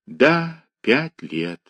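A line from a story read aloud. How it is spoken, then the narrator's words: Sighing. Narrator (Russian): вздохнула Таня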